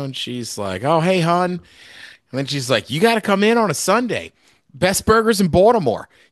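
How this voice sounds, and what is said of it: Imitated Baltimore accent. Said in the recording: “the woman just has that pure Baltimore accent.”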